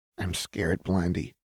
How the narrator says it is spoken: mumbled as she tipped her head down

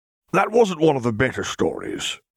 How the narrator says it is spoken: grumbled his father

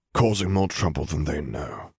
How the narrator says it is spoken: Arcturus muttered

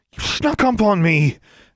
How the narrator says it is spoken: Alexandra snarled

